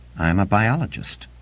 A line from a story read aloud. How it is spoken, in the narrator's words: she said flatly